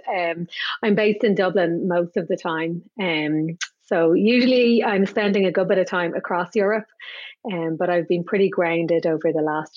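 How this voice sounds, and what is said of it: Irish accent. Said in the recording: “you have a strong Irish accent”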